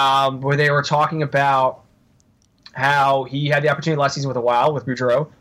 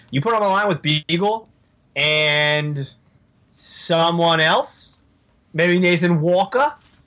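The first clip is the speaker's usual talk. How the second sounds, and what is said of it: Failed Australian accent, sounds Boston. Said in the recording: “I can't do an Australian accent, so I don't know why I went Boston there.”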